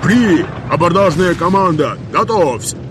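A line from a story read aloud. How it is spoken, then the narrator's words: Captain barking over cannon ringing. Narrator (Russian): Перекрикивая звон в ушах после пушечного залпа, рявкнул капитан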